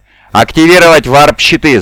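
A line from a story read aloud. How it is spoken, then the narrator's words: Shout. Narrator (Russian): закричал Гессард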